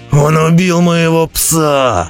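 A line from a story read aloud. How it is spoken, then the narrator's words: Growling. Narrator (Russian): прорычал Роди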